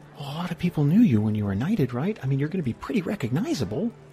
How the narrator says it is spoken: He's just going to whisper

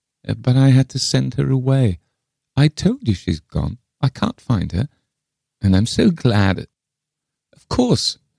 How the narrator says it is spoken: she added wistfully

